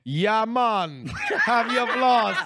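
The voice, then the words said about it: Put-on Jamaican accent. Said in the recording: “looking for an accent. Who has an accent? ... Jamaican, I'm hearing. ... Jamaican dentist”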